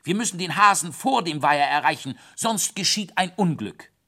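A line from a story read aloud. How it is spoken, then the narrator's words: Called out. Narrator (German): rief ich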